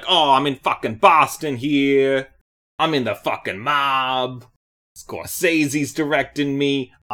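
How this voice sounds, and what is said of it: Leonardo DiCaprio Boston mob accent. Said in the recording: “Leonardo DiCaprio was gonna walk out and be like ... What accent was that?”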